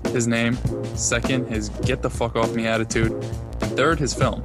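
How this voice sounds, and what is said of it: Put-on New Jersey accent. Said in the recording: “That's a great New Jersey accent”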